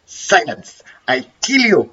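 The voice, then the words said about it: Bad impression of a puppet voice. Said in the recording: “I've done a really bad impression of the Jeff Dunham puppet”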